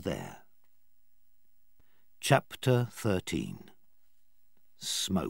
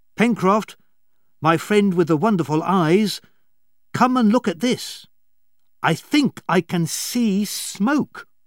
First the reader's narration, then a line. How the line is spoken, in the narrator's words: Herbert shouted from the cave window